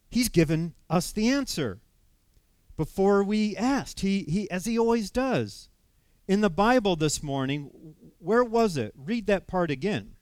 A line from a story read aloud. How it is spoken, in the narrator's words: she said excitedly